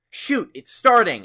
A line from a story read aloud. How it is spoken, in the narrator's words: I shouted